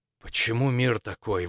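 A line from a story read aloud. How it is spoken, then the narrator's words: Breathy exhale. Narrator (Russian): выдохнул он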